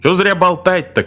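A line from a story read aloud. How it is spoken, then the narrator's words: Shouting. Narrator (Russian): крикнул Григсби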